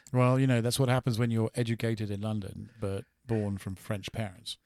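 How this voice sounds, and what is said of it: Slight British accent. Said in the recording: “you have a bit of a British accent”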